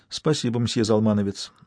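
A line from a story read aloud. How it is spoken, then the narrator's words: Plain. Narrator (Russian): сказала судья Курьево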